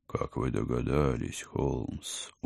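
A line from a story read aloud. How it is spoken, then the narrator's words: Glum question. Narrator (Russian): уныло спросил доктор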